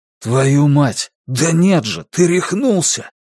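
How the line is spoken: Very hoarse voice. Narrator (Russian): Голос у Клая был не просто хриплым

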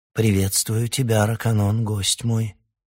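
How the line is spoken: Calm reply. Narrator (Russian): откликнулась она, спокойно на него глядя

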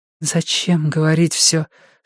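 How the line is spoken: Whispered question. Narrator (Russian): шепотом спросила Вики

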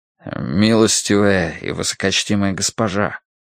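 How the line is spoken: Quiet. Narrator (Russian): тихо произнес он

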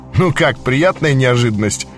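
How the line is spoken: Chuckle. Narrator (Russian): хохотнул Лебедкин

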